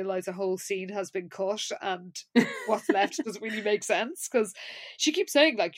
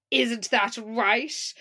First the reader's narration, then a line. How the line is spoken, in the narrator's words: Lila then says loudly